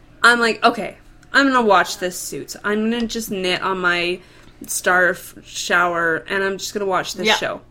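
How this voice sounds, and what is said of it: Sick-sounding, slightly off voice. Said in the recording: “I thought I was homesick, as you can probably hear in my voice. I'm a little off.”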